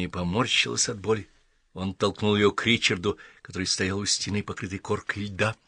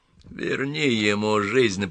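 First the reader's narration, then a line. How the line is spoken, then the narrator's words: Hoarse rasp. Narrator (Russian): прохрипел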